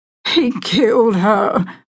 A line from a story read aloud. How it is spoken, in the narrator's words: Hunter Davidson sobbed